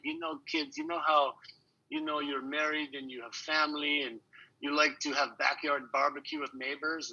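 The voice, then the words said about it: Put-on Polish accent. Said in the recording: “I can throw a little bit of a Polish accent in there.”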